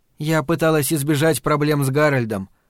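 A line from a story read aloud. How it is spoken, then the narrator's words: Plain. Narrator (Russian): ответила Фрэнни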